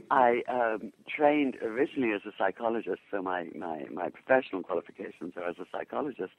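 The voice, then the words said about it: English accent. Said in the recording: “I born in England, obviously from my accent”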